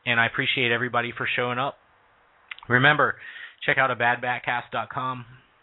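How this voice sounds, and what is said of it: Hoarse, tired voice. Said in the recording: “I'm losing my voice. I'm a little bit on the tired side tonight.”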